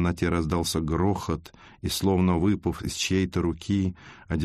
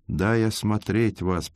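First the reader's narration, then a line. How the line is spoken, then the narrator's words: Hoarse. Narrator (Russian): прохрипел Христофор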